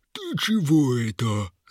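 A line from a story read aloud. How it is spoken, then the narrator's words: Loud laughing troll. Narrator (Russian): захохотал тролль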